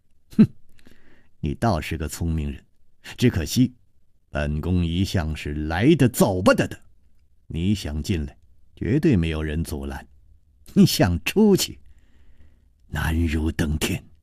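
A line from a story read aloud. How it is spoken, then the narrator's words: Cold sneer. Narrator (Chinese): 宫南雁冷笑着说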